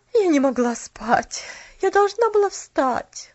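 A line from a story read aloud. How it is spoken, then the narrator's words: Weary sigh. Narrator (Russian): Устало вздохнула тетя Поля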